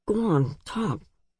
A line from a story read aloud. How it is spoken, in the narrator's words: he said to Lev in his usual mumble